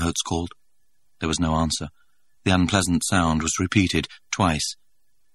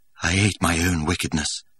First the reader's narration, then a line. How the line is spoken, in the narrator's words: he added in a lower tone